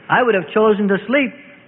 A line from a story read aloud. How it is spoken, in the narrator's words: Thomas said